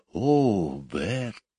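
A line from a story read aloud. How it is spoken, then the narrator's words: Whisper. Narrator (Russian): прошептала Мэри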